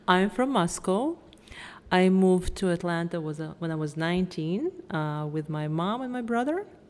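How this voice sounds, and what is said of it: Russian accent. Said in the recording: “I'm obviously also Russian. I'm sure you can tell by my accent. It's hard to hide.”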